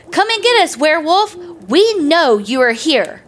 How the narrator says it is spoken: JEEPIE yelled out

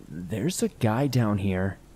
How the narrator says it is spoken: she said

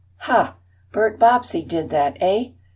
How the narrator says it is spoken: exclaimed aged Mr

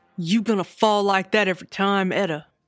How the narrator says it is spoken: snarled Albert from the front row

